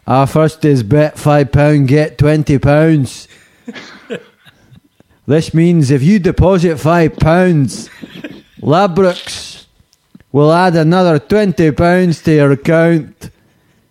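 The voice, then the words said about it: Put-on Liverpool Scouse accent. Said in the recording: “This is Liverpool accent.”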